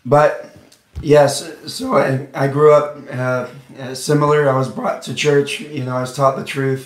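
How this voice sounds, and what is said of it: Rough, strained voice. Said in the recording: “as you can hear, my voice is a mess”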